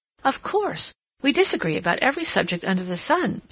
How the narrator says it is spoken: she exclaimed

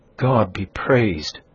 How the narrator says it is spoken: exclaimed the trembling aunt

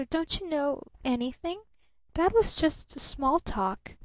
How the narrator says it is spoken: she faltered

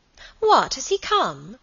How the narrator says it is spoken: cried Alicia

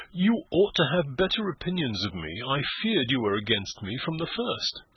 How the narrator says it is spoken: exclaimed Eustacia

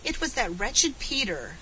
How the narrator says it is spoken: sobbed Felicity indignantly

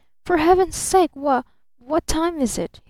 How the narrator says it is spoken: he faltered

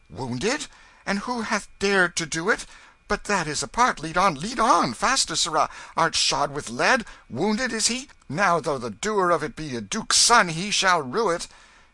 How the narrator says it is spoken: The king's manner changed at once, and he cried out

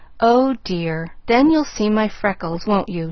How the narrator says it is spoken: she sighed

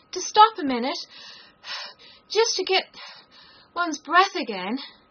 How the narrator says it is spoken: Alice panted out, after running a little further

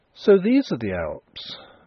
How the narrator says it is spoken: Nellie exclaimed

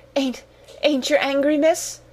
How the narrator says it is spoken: she gasped

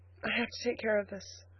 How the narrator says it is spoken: faltered Elnora, hurrying toward the door to hide the tears which were rolling down her cheeks

